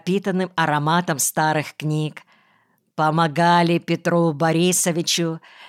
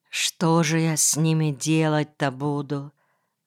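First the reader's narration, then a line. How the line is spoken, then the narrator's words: Quiet, bewildered. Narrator (Russian): сказала тихо и растерянно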